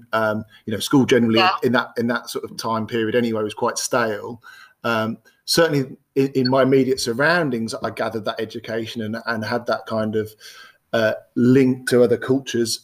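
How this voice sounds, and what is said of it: Birmingham English accent. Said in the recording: “I don't know if you can tell by the accent, I grew up in multicultural Birmingham”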